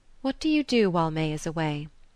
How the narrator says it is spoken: said after a pause

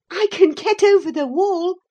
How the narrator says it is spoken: she said, laughing

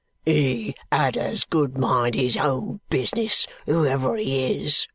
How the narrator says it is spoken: growled the man

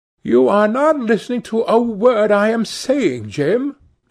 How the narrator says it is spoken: cried Sibyl

